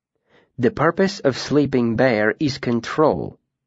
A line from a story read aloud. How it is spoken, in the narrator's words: Vachette said calmly